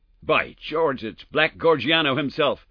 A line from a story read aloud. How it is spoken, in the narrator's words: cried the American detective